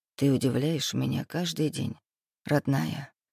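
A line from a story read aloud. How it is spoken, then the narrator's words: Heartfelt demonic whisper. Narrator (Russian): Проникновенно зашептал демон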